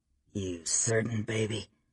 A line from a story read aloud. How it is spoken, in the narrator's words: he murmured, his voice low, persuasive